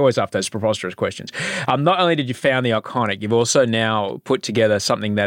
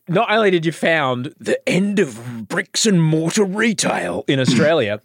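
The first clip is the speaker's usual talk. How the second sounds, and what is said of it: Mock TV current-affairs presenter voice. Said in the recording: “put on my current affair voice”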